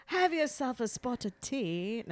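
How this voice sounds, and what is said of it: Put-on English accent. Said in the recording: “you should have done the English accent... I'm not that good at English accent.”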